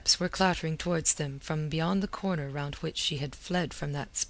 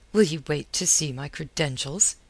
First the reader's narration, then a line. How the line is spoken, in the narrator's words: he snapped